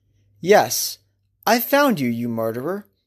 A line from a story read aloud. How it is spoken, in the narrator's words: Ahab said calmly